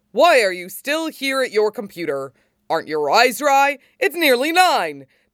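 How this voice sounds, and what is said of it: Booming heroic character voice. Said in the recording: “He boomed in his best hero voice.”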